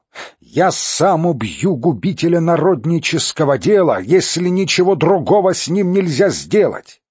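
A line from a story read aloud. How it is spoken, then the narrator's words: Shouting amid uproar. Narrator (Russian): Один из них, некто Попов, среди общего крика и смятения прокричал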